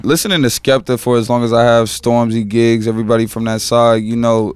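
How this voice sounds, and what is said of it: UK black British accent. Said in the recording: “UK black men in the UK doing that accent... you nail that exactly the way you were sounding... I recognize that accent”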